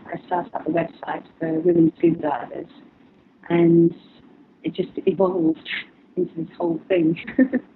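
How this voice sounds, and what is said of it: Speaks with a noticeable accent. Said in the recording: “it's my accent.”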